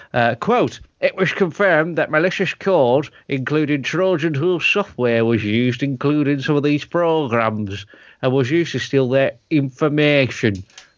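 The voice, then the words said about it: Put-on accent reading a quote. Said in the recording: “I'm still keeping the accent.”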